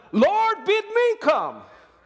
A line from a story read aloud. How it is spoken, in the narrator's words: be yelling